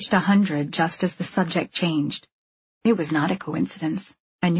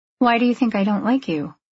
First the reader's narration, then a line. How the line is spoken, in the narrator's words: I asked